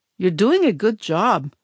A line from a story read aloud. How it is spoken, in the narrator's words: Mammy murmured, a puzzled expression on her face